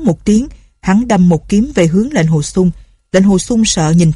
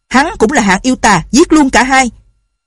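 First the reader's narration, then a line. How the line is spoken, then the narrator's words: Shouting. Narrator (Vietnamese): Tân quốc Lương quát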